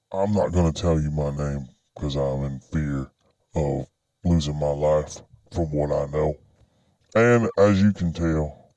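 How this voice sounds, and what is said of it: Electronically disguised voice. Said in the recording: “I'm using a voice changer modifier, something along those lines, to disguise my voice”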